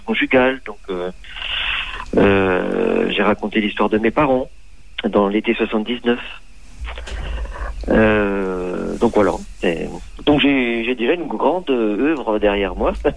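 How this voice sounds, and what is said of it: Regional French accent, Franche-Comté. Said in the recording (French): “Vous êtes originaire de Franche-Comté ... Vous avez l'accent, ça c'est clair.”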